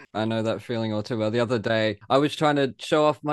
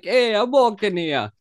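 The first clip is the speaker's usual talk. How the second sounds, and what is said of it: New York accent drifting into Italian. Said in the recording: “my New York accent ... suddenly I'm Italian ... That's freaking Italian again ... I keep going into Italian”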